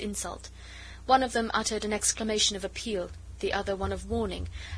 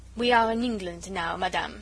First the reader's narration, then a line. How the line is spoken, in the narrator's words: rejoined the Comtesse coldly